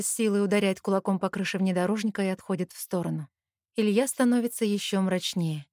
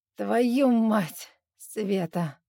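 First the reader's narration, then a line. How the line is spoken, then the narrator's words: Broken voice repeating. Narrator (Russian): надломленным голосом повторяет Лёша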